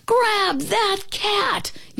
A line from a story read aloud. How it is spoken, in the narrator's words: yelled the man